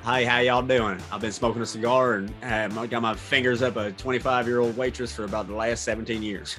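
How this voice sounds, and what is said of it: Put-on Southern US accent. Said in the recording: “I should definitely have a southern accent ... That was so much better. So much better.”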